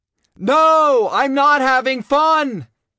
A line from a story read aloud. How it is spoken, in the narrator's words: I bellowed